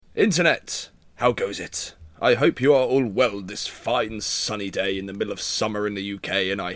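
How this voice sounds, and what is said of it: Majestic well-spoken King's English narrator voice. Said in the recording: “I did a narrator voice. ⟦...⟧ that majestic, well spoken King's English, Dickensian, Shakespearean sound coming from my body right now”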